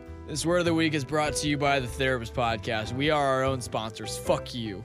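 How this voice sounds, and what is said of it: Hoarse, worn-out voice. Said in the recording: “my voice is kind of shot”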